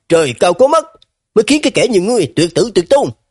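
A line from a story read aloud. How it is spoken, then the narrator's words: Loud laughter. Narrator (Vietnamese): Lâm Phi Hồng cười lớn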